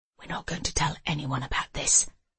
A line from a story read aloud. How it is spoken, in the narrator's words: Witold whispered